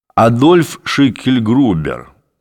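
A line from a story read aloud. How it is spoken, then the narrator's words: Grumble. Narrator (Russian): проворчал Демиург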